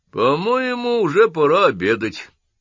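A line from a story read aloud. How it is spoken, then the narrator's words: Colonel, plain. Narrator (Russian): сказал полковник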